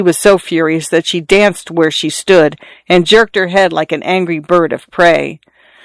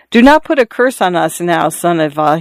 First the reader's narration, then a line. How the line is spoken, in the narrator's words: he said timidly